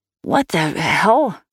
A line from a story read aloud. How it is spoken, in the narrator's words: she gasped